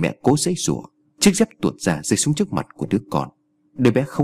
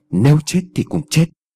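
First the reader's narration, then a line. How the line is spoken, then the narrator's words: Firm, hard voice. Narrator (Vietnamese): Người mẹ gằn giọng kiên quyết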